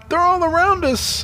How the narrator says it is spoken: Joan cried out

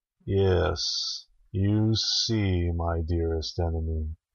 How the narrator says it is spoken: said Nergal, his voice soft with menace

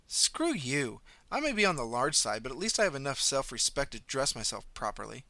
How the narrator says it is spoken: snorted

